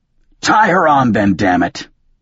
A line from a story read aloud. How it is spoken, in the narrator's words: I snapped